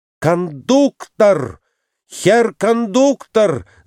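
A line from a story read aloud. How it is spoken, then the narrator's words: Shout in strange voice. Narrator (Russian): закричал он не своим голосом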